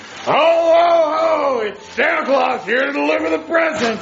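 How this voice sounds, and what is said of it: Santa Claus character voice. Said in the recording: “impersonating as Santa Claus”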